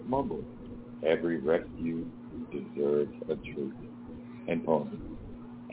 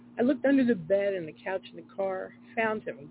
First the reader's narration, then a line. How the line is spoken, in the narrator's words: Growth yelled